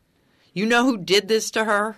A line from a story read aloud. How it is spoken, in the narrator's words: her father shouted